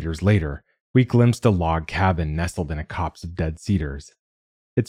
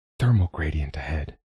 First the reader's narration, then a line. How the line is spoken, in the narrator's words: whispered